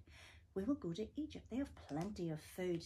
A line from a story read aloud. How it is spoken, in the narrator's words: said Jacob